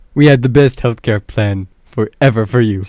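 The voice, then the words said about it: Poor imitation of another person's voice. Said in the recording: “my best Donald Trump impression... That is absolutely awful... I never claimed to have a good Donald Trump impression”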